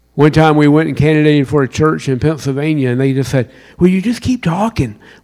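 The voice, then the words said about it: Southern US accent. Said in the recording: “We love your southern accent. ... So you're really from South Carolina?”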